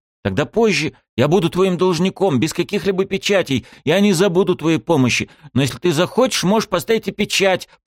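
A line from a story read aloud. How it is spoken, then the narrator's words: Rattled off quickly. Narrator (Russian): протараторил я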